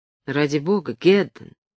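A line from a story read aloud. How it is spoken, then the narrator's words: Quiet. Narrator (Russian): сказал он тихо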